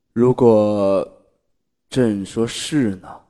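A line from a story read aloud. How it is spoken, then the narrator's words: Low, deep voice. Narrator (Chinese): 他声音低沉的道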